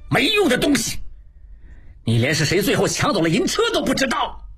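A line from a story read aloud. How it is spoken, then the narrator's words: Furious. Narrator (Chinese): 金勇 怒不可遏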